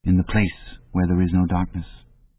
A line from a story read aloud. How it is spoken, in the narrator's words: he said hesitantly